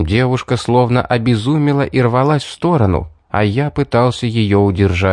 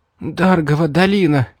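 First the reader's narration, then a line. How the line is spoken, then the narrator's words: Hoarse, straining young woman. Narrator (Russian): прохрипела девушка, пытаясь встать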